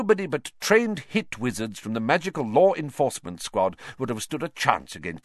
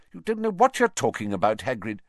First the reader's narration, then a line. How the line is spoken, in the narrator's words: said Fudge sharply